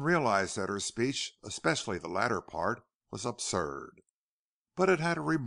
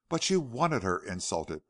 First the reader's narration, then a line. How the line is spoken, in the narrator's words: protested Pierce hotly